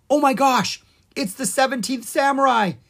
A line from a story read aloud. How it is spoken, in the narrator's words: he cried